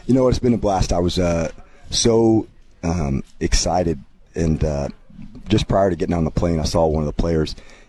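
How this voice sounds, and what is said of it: Voice slightly worn and rough. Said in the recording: “excuse my voice a little bit... extra teaching, extra classroom. So I apologize for that.”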